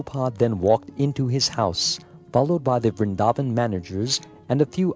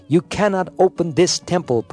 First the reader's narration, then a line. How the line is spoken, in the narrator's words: Prabhupada shouted